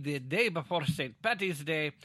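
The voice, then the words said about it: Terrible put-on accent. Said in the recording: “That was a terrible accent”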